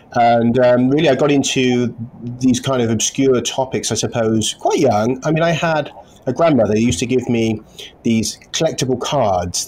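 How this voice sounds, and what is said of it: English accent, Queen's English tone. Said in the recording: “I'm from a small town in the southwest of England called Stroud ... sort of middle class English background ... I have a bit of the Queen's English tone to my voice”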